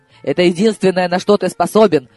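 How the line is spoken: Angry bark. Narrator (Russian): рявкнула зло она

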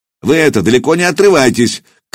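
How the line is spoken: Shouted after them. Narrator (Russian): крикнул им вслед старшина

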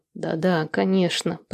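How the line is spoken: Muttered. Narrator (Russian): пробормотал Владислав

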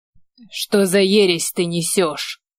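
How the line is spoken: Hoarse wheeze. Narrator (Russian): Прохрипел

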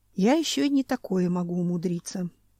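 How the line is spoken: Sighing. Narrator (Russian): вздохнул Семен

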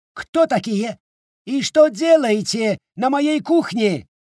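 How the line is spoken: Yelling. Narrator (Russian): завопил он

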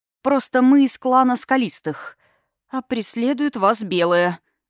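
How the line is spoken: Hoarse, frightened strained voice. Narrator (Russian): окончательно севшим голосом выдавила бедняжка, непонятно что себе надумав от страха

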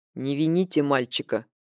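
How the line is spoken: Calm reply. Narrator (Russian): спокойно ответил Фэнг

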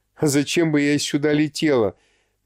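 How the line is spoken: Mocking surprise. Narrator (Russian): насмешливо удивилась Элита

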